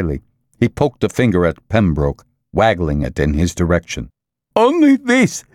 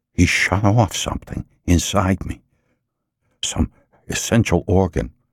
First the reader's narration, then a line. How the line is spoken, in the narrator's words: Quietly, his face drained of color and the ordinary hopefulness of the process of life, Pembroke said